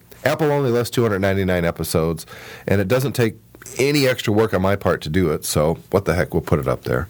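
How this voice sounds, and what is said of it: Sick-sounding voice. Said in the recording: “I am sick, by the way. If you can't tell by my voice, I'm feeling just terrible.”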